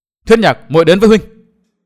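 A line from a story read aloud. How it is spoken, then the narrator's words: Anxious cry. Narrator (Vietnamese): Thiên Hương công chúa vô cùng lo lắng, nàng kêu lên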